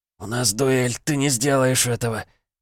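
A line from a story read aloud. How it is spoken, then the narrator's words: Hoarse whisper. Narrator (Russian): осипшим голосом прошептал он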